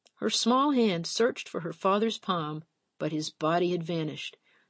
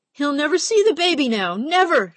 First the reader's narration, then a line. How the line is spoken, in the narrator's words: cried